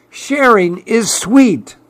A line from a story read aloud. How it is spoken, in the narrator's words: cried Clark the shark